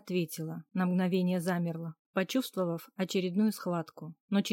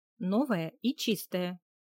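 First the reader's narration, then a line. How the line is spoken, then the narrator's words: Stern, menacing clarification. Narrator (Russian): уточнила я, грозно нахмурив брови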